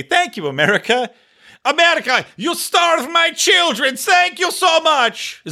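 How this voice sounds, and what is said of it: Put-on Iranian accent. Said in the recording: “Is that an Iranian accent? I don't know. I don't know what Iranians sound like.”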